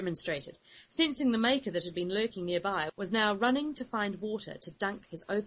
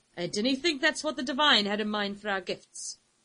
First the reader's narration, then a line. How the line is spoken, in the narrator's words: snorted